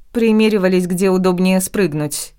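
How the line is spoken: Muttering. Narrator (Russian): буркнула

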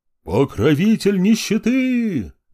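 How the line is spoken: Roaring drunken crowd. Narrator (Russian): взревела толпа пьяных сектантов

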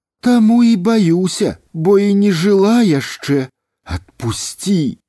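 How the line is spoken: Pleading. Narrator (Belarusian): Узмалілася яна

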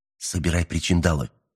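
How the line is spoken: Urgent whisper. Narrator (Russian): настойчиво прошептал он

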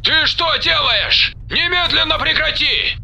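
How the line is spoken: Shouting over a speaker. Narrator (Russian): закричал в динамике Алекс

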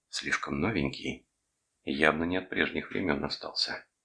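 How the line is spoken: Whisper. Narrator (Russian): она прошептала

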